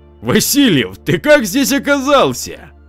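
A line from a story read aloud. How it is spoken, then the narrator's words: Joyful shout. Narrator (Russian): радостно закричал комиссар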